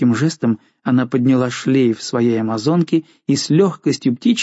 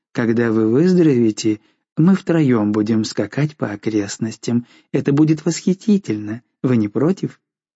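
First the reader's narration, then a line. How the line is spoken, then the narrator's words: Tender, coaxing, smiling. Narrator (Russian): сказала нежным, вкрадчивым голосом, ласково улыбаясь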